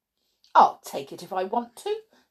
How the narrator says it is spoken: snorted Little Miss Stubborn

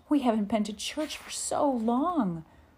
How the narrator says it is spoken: Ma exclaimed

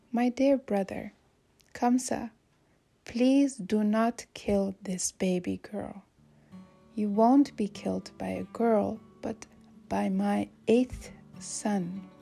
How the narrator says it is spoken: Quietly, Devaki said

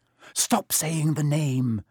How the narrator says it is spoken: said Ron in a terrified whisper, as if he thought Voldemort could hear them

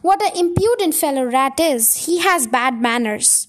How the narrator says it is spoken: said Rat

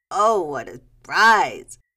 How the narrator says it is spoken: she exclaimed

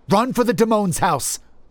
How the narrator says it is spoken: I exclaimed

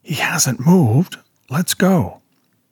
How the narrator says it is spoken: hissed

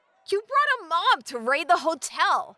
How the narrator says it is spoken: Marilla said in shock, raising her voice to project over the crowd

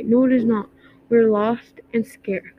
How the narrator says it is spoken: said Bella

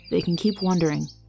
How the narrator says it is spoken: murmured quietly

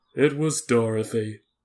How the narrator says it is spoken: said the Lion gravely

